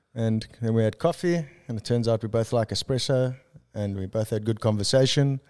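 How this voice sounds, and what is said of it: South African accent. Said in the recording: “Where's that accent from?... South Africa.”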